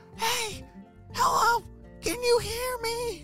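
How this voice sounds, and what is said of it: Whisper yelling. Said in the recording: “was trying to whisper yell. Do you know how to whisper yell?”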